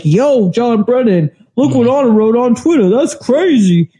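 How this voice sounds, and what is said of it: Impression of SBA. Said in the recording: “that's my SBA impression... that's how he talks”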